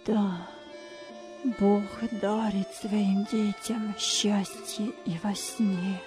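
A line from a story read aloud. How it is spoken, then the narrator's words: Quiet, joyful. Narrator (Russian): радующийся отец Майрат тихо произнес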